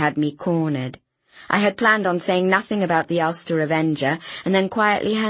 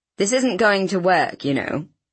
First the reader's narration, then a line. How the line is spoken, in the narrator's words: Inspector Hewitt chuckled